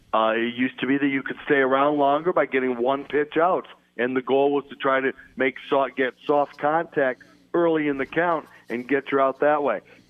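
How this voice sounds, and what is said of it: Strained, worn-out voice. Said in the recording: “apologize for my voice. ... I just got done doing a 5.5-hour baseball game”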